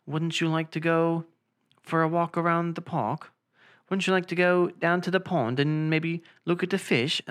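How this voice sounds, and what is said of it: Put-on British accent. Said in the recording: “stop with your British accent. It's so good”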